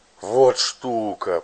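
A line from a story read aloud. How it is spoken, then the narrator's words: Hoarse rasp. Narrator (Russian): прохрипел он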